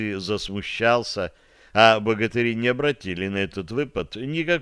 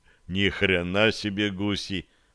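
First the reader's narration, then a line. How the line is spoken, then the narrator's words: Muttered. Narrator (Russian): пробормотал Муромец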